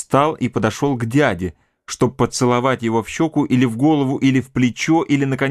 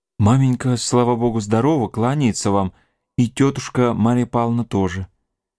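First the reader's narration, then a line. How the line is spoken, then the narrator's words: Timid speech. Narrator (Russian): сказал робко Александр Федорович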